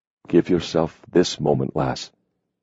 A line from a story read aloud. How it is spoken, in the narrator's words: he breathed huskily